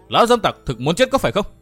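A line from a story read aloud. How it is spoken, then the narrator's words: Loud shout. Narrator (Vietnamese): quát to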